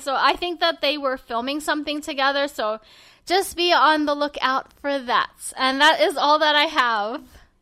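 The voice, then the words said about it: Tired, strained voice, getting softer. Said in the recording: “Your voice is still alive. ... you're, like, getting softer and sighing. ... I really had to put my voice into, like, loud mode, even though it was, like, straining my throat.”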